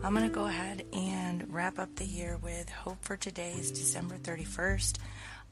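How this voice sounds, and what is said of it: Rough, strained voice. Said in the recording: “As you can hear from my voice, it's definitely not podcast reading friendly... bear with my voice... when my voice is at a better place”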